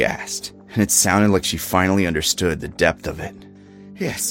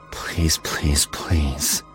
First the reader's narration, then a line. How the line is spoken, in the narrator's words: I muttered under my breath